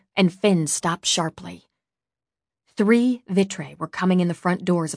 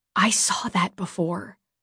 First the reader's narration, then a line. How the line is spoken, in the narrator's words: I whispered